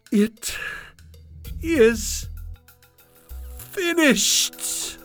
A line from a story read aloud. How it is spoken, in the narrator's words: cried